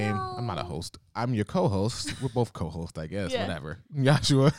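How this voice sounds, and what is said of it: Usual voice. Nothing is said of it.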